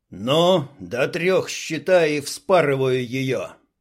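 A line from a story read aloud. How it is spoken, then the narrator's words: Growling. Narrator (Russian): Зарычал Дима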